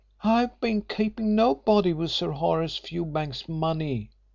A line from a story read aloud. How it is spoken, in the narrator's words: protested the girl feebly